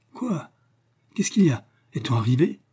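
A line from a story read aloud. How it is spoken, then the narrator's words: Dazed, sleepy stammering. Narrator (French): balbutia-t-il ahuri et somnolent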